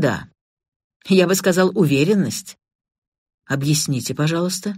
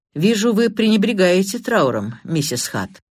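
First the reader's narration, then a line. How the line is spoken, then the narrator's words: Dry. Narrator (Russian): инспектор Карри сухо произнес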